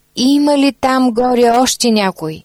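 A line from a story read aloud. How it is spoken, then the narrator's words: Wretched scream. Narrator (Bulgarian): след дълго мълчание, нещастникът изкрещял отново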